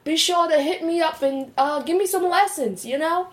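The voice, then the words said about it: Put-on British accent. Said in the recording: “who is actually from Britain or is British, you know, and is offended by this accent, I do apologize ... My accent is actually starting to dwindle a little”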